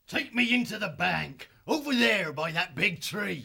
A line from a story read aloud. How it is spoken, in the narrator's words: he barked